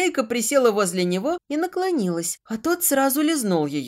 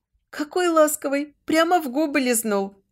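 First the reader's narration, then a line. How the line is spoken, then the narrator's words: Laughing. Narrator (Russian): засмеялась она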